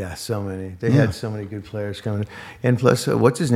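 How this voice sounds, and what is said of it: Usual voice. Nothing is said of it.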